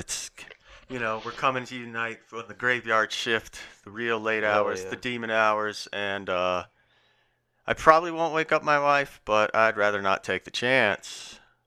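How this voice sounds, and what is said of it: Low, quiet, smooth DJ voice. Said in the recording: “I don't have to talk as loud ... I sound like a low, smooth DJ”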